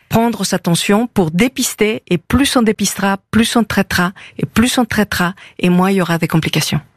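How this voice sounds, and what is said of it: Slight foreign accent in French. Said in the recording (French): “Vous avez un petit accent d'Amérique du Sud, je crois. ... Amérique du Nord. ... vous êtes mexicaine”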